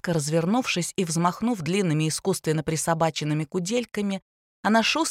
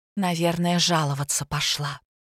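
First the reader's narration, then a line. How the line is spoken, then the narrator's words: Quiet comment. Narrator (Russian): тихо прокомментировала ситуацию Катя Стогова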